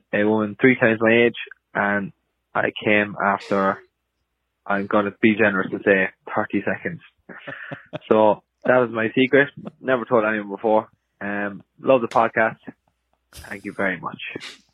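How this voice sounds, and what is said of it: Irish accent. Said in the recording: “hearing a puerile like sexcapade from an Irish man”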